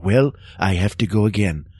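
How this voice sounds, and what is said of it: Ronald Reagan impression. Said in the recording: “the way Reagan would sound is he would go”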